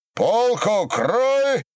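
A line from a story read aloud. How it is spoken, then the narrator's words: Shout. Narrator (Russian): закричал Ермолай Кочнев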